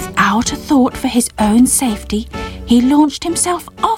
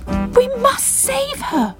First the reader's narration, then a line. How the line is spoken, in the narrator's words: cried Bubble